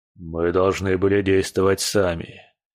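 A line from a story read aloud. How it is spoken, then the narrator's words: Grim. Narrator (Russian): мрачно произнес Герхард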